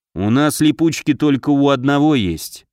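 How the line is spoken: Sighing. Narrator (Russian): вздохнул командир

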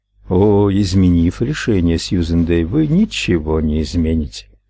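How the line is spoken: Plain. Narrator (Russian): сказал Дор

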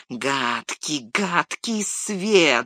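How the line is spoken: Hissing. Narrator (Russian): зашипел он

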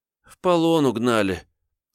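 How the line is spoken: Heavy sigh. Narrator (Russian): тяжко вздохнул Тошка

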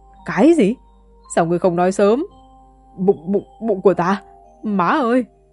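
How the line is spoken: Agonized screaming. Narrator (Vietnamese): Huyết Giảo đau chết đi sống lại, tiếng kêu gào khó nghe hơn heo bị thọc tiết

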